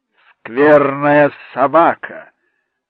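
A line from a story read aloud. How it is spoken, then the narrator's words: Sudden loud remark. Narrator (Russian): вдруг громко сказал Дервинт в перерыве между взрывами хохота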